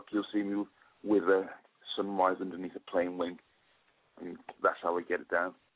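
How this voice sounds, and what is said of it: Noticeable accent. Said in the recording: “I just love your accent.”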